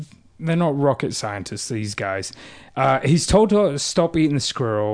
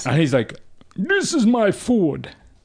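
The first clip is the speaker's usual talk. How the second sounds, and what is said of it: Put-on Russian accent. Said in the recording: “Russian accent.”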